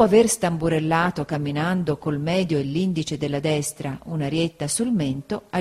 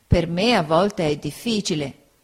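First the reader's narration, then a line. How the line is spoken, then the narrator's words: Plain. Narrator (Italian): rispose Uriah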